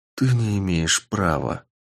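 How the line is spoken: Quiet. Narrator (Russian): тихо сказал

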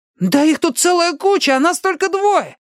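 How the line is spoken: Exclaimed. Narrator (Russian): воскликнул Чарли

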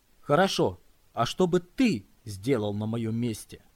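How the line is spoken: Sharp, slightly anxious. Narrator (Russian): резко возразила она, впрочем, с некоторой тревогой в голосе

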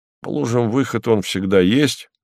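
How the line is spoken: Grumbling. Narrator (Russian): проворчал Кузьма Иванович

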